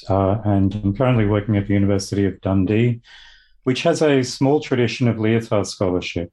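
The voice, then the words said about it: Australian accent. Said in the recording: “I'm from Australia, as you may or may not be able to tell from my accent”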